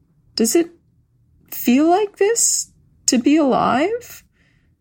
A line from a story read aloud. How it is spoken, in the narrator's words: asked hesitantly